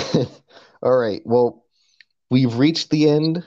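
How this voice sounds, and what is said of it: Usual voice. Nothing is said of it.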